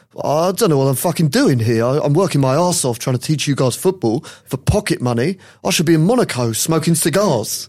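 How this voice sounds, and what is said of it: Good Roy Hodgson accent impression. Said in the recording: “what do you think of the accent?... That was actually a very good”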